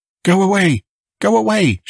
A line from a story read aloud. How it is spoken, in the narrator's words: she cried